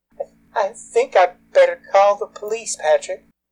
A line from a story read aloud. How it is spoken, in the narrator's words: Pierre's quavering voice said